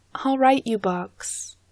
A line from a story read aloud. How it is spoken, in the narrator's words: Angharad says